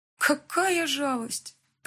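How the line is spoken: Feigned sigh. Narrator (Russian): притворно вздохнула подруга

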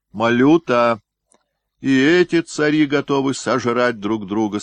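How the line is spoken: Loud. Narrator (Russian): сказал Иван Васильевич громко

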